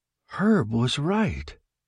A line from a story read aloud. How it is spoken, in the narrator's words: said, in a low, wondering tone